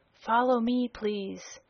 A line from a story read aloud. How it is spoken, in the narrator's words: The officer with the blue gold chain whispered